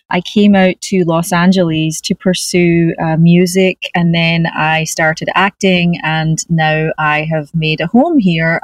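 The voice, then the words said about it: Scottish accent. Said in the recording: “You have a beautiful Scottish accent. ... A wee brogue.”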